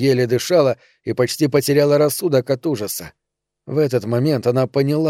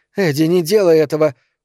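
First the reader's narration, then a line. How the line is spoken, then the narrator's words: Hoarse rasp. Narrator (Russian): прохрипела Эльза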